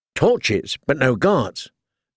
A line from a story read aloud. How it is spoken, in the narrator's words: Theon said testily